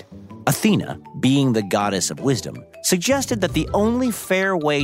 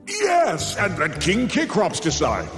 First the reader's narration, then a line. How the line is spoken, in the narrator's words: Zeus bellowed, relieved he once again could pass the buck